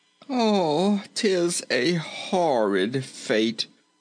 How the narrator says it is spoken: moaned Rinkitink

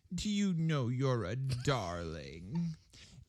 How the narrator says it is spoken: Edie laughed

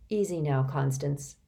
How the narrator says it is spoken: Reynie said as calmly as he could

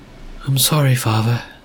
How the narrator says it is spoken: said Mara, her voice trembling

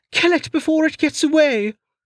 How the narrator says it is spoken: Lin screamed

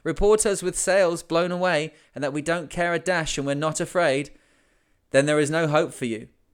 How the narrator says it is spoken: they cried

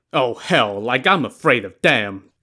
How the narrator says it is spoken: Li Kui scoffed

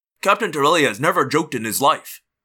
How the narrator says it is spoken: Jones growled

